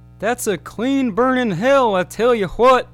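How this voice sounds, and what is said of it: Hank Hill cartoon character impression. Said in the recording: “his Hank Hill impression”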